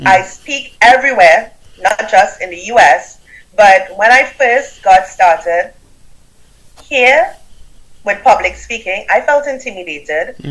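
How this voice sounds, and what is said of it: Caribbean accent. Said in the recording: “listen to my accent. I have a Caribbean accent. I'm from Trinidad and Tobago.”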